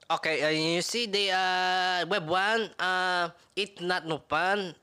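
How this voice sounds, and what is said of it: Put-on Filipino accent. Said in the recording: “give a recap with a Filipino accent ... He's rapping again with an accent.”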